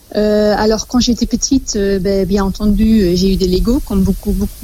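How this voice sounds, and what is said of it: Slight Flemish Belgian accent. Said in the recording (French): “avec un petit accent ... je suis belge, je suis flamande”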